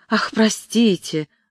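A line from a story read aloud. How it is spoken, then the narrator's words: Exclaimed. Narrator (Russian): воскликнула тетя Кэрри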